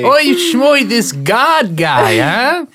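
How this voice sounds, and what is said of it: Deliberately bad mock Hebrew accent. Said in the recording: “bad Hebrew impression”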